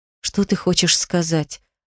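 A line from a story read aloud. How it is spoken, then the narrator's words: Trembling voice, question. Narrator (Russian): дрожащим голосом спросила я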